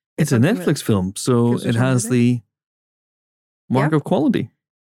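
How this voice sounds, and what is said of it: Sarcastic tone of voice. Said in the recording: “I don't see how you could possibly discern anything else from my tone of voice.”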